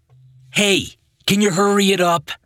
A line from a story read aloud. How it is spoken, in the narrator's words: Frank yelled behind the family